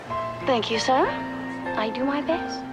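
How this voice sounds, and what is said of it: Fake English accent. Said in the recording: “Your stupid fake English accent.”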